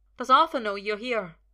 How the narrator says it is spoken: asks desperately

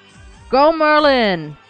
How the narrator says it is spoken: Elion shouted as if they were at a footy match

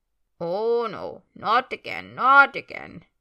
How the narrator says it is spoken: comes the muttering voice of Creature as he wheezes and creaks

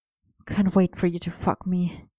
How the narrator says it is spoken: he murmured against Arthur's jaw

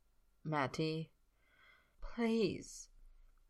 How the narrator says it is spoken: he says it softly

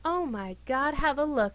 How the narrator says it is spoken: exclaimed Sir Gareth

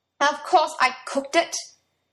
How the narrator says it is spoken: he snapped back, his patience reaching its limit

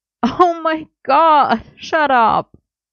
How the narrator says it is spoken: Merlin groaned

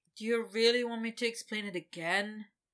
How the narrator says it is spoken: Victor said with a sigh

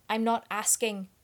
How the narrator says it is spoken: his father snapped, harsh and angry

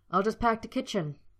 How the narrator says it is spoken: snapped, wanting to be anywhere but

